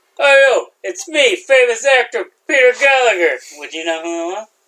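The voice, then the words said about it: Imitates another person's voice. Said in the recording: “my impersonation's pretty good”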